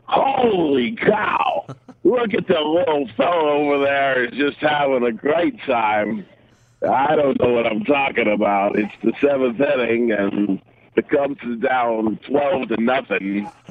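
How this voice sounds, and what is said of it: Imitates another person's voice. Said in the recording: “do an impression ... your Harry Carey voice”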